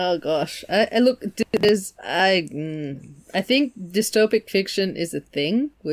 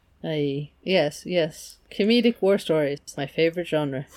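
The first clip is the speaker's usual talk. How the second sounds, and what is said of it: Sarcastic delivery. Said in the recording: “that was sarcasm.”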